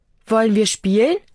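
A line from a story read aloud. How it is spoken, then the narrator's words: Plain question. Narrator (German): fragt Anna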